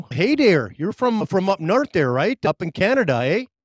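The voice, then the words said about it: Put-on Canadian accent. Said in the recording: “Did you like my accent? Was it pretty good?”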